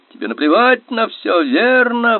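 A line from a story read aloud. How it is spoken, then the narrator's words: Yelling. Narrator (Russian): вопил Банни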